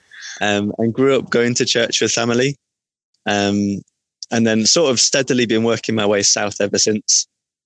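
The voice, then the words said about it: Northern English Manchester-area accent. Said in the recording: “I grew up in Chorley, which is near Manchester. So that's the reason for my accent. ... That's the accent”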